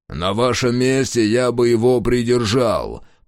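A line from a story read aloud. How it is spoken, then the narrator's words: Growled. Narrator (Russian): прорычал он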